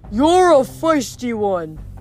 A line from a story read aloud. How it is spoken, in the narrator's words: the deep voice bellowed